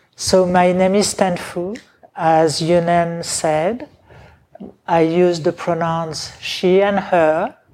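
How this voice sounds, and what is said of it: Medium to strong foreign accent. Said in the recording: “I have a little accent. Some people say very strong. I say medium.”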